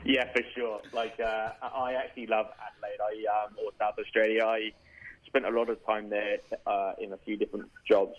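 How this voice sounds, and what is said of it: Southern English accent. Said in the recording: “By the accent, you can probably tell I'm from the UK and a place called Reading, which is in England, but down south.”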